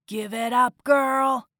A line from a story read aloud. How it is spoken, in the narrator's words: growled